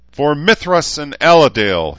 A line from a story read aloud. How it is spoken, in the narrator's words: bellowed